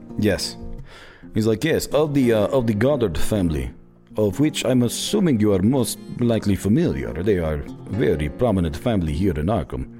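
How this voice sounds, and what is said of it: Wavering put-on Russian accent. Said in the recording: “Jeez, I don't know where that accent's going. ... I'm Russian. This is my accent.”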